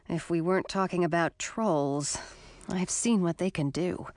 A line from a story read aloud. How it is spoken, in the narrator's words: muttered under my breath